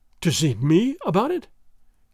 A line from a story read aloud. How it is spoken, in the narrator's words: gasped Don Carlos, with something of fear and a great deal of hope in his breast